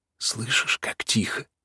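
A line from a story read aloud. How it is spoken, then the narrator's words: Barely audible. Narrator (Russian): спросила она чуть слышно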